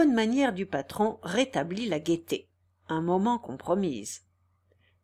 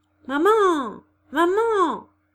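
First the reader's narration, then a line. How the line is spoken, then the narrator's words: Sudden cry. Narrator (French): s'écria brusquement Nana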